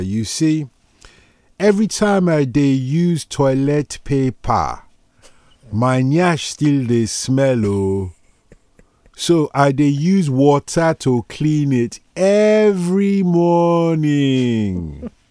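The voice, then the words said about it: Put-on African accent. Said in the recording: “my African forefathers ... I can do this accent”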